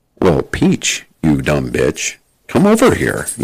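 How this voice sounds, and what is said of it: Exaggerated plain white American voice. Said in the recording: “make Mario sound as humanly white as possible ... I did the white voice.”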